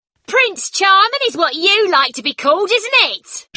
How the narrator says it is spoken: she shouted

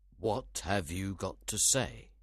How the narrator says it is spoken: he asked

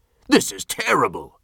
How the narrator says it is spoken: the governor cried

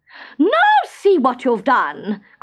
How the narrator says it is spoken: cried the queen

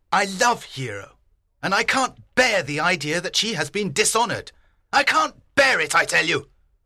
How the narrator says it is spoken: he shouted

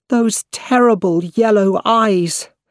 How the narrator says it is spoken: Her face was white, and she cried out

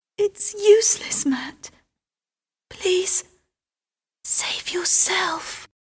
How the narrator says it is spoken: she whispered

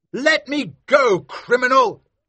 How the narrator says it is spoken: shouted Maskew

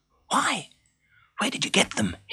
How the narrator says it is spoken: hissed Danilia anxiously

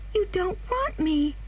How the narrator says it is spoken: cried the child suddenly

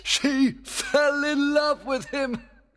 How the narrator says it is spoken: cried Oberon with pleasure

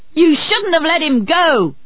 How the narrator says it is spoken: Otley shouted

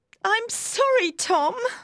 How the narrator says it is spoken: cried Maggie

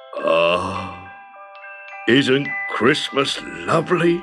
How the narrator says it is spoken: He sighed to himself, and a lump in his throat

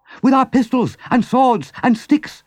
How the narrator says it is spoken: shouted Rat

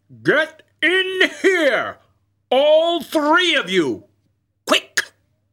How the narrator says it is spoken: shouted

